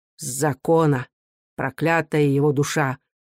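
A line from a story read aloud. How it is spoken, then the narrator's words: Through gritted teeth. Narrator (Russian): сквозь зубы сказал он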